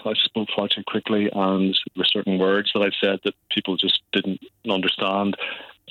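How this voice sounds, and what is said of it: Distinctive Northern Irish accent. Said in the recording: “they can still pick up a hint of a Northern Irish accent ... you've got quite a distinctive Northern Ireland accent, which I've got to say is absolutely lovely ... It's still quite strong.”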